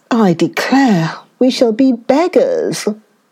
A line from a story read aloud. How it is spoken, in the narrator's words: she groaned